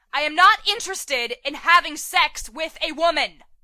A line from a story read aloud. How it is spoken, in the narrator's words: he shouts